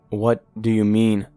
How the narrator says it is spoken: I asked shakily

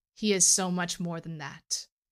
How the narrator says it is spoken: Jace replied

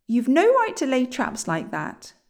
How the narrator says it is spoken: said William crossly

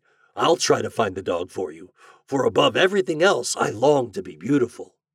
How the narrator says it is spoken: said the glassblower eagerly

